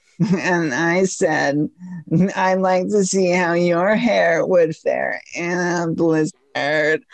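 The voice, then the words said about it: Imitates another person's voice. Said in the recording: “That's my Klobuchar impression.”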